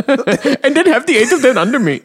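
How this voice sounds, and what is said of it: Put-on Indian accent. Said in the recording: “Did he turn Indian there? ... That's literally the only accent I can do. Every accent I try to turns into Indian.”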